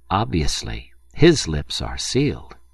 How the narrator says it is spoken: a very young officer observed solemnly

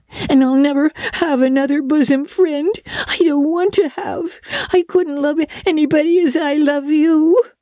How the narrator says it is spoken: sobbed Diana

